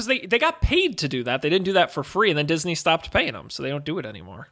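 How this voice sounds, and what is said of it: Usual voice. Nothing is said of it.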